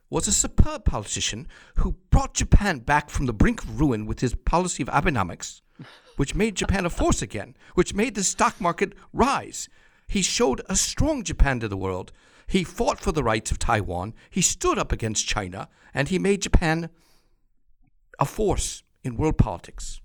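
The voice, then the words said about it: Fake English accent, heavy plosives. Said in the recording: “my fake English accent ... the English accent has so many plosives”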